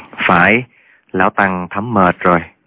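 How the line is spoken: Weary sigh. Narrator (Vietnamese): Giác Diễn thở dài

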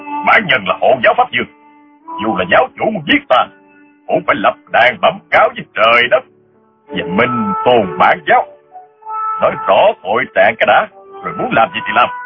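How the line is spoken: Shouted. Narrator (Vietnamese): Tạ Tốn quát lên

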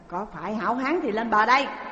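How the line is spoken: Shouted. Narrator (Vietnamese): Lý Quỳ cũng quát lên mà rằng

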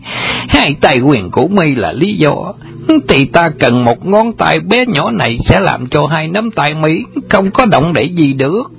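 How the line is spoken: Loud laughing. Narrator (Vietnamese): Châu Bá Thông cười to lên và nói

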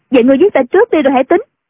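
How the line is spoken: Crying out. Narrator (Vietnamese): Tiểu Chiêu kêu lên

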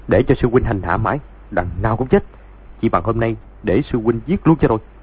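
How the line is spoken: Harsh, gritted voice. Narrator (Vietnamese): Doãn Chí Bình gằn giọng

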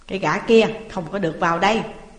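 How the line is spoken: Innkeeper shouting loudly. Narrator (Vietnamese): Chủ quán thấy Thi Công mặt mũi đen sạm, quần áo rách rưới thì quát to

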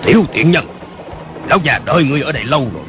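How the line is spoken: Old man shouting. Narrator (Vietnamese): lão già cao lớn quát lên

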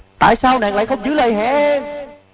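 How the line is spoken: Anguished despairing scream. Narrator (Vietnamese): Tiếng thét đầy bi thương, tuyệt vọng, khổ đau

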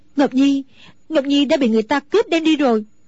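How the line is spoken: Trembling. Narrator (Vietnamese): Mẫn Nhu run rẩy nói

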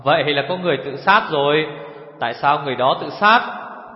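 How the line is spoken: Excited raised voice. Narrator (Vietnamese): Tiểu Phi sáng mắt, cao giọng

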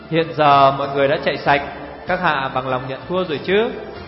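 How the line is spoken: Amused, smiling. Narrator (Vietnamese): mỉm cười nhìn gã bằng đôi mắt nhiều thích thú

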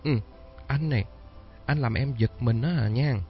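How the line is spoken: Smiling, gently reproachful. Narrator (Vietnamese): Trâm mỉm cười như có ý trách

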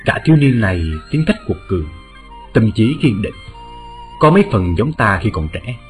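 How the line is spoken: Smiling. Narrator (Vietnamese): Vạn Nhân Vãn khóe miệng lộ ra nét mỉm cười nói

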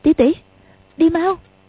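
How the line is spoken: Fearful trembling voice. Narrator (Vietnamese): Quách Tương sợ Ni Ma Tinh có quỷ kế gì, run run nói

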